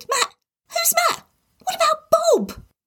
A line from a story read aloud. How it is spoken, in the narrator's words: Tim squeaked